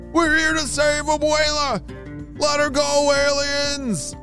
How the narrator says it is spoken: the boys shouted

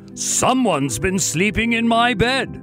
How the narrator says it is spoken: Papa Bear growled

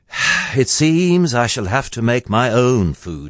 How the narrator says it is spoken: he sighed

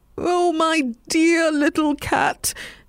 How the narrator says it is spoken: he cried

